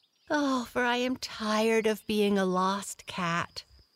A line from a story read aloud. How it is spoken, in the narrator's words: sighed Blackie